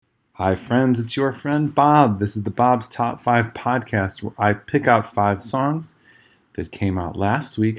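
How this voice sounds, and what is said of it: Slightly hoarse, worn-out voice. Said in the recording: “my voice is a little shot, it's because I was at Riot Fest yesterday”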